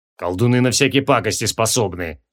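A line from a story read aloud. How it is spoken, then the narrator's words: Doubtful grumble. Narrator (Russian): с сомнением проворчал Джориан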